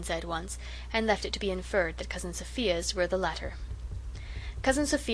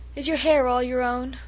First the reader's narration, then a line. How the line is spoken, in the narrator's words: said sadly